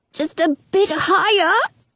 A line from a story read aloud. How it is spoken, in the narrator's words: squeaks